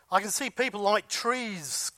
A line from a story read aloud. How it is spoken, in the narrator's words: cried the blind man